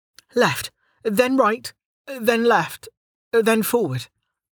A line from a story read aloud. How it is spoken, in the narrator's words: Delta groaned